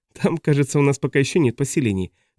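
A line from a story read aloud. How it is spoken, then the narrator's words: Laughing. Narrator (Russian): засмеялась она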